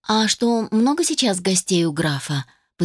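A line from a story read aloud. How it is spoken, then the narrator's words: Gentle question. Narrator (Russian): поинтересовалась я мягко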